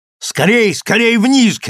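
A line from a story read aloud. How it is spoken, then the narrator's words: Shout. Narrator (Russian): крикнул Станислав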